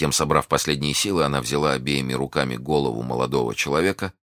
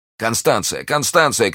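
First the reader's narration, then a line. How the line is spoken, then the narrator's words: Shouting. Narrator (Russian): кричал Д'Артаньян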